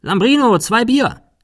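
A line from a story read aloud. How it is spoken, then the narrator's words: Called inside. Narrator (German): rief nach innen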